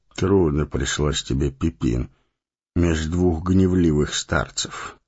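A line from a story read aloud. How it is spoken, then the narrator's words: Warm gentle speech. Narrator (Russian): ласково проговорил он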